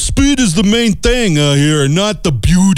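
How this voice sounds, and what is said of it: Put-on New York accent. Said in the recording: “Let's do that New York accent”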